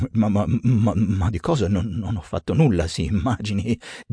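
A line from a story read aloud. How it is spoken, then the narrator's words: Stammering. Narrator (Italian): balbetta Topeka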